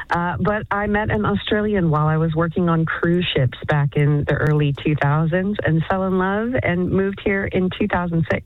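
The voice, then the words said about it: American accent. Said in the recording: “People can hear this this accent. What's the accent from? ... my family's all from the American South”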